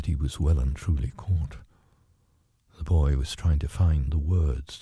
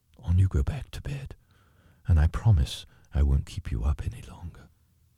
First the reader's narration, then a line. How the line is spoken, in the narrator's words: after a pause and very gently